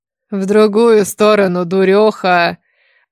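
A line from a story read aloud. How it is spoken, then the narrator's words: Smirking snort. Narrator (Russian): Хмыкнул мой неизвестный сопровождающий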